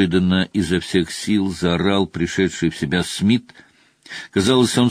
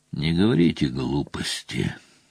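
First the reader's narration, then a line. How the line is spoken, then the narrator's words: Tired objection. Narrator (Russian): устало возразил Гамильтон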